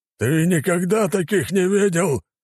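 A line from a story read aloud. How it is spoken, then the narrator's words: Man growling. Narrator (Russian): прорычал мужчина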